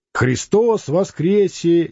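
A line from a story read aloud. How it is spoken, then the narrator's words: Barked roar. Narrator (Russian): не сказал, а рявкнул Митрофанов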